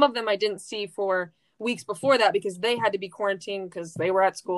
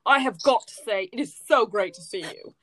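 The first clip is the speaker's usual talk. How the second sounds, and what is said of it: Weak fake British accent. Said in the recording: “a fake British accent ... That's not very good British impersonation.”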